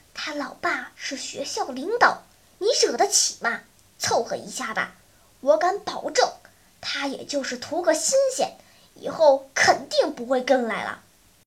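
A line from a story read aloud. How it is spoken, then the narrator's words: Lowered voice. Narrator (Chinese): 小依依压低声音说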